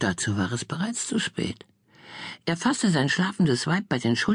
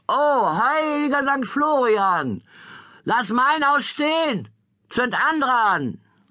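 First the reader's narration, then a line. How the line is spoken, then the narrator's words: Shout. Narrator (German): schrie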